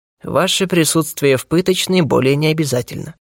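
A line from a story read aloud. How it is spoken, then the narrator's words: Calm. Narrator (Russian): спокойно произнес секретарь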